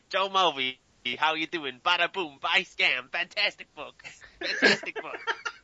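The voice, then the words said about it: Joe Mulvey impression, Pesci-style. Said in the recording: “do a good Joe Mulvey imitation ... Joe Pesci, either one ... I'll pretend to be Joe Mulvey”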